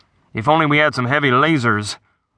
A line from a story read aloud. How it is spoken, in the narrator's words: the weapons officer grumbled